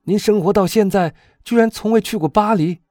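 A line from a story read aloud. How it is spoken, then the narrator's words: Astonished exclamation. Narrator (Chinese): 阿尔贝惊叫道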